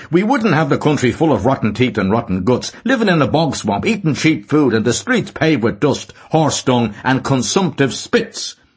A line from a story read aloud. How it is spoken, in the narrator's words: he said to her somewhat loudly